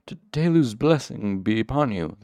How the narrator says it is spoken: stammered explosively

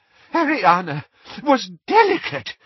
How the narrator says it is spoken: said Doge desperately

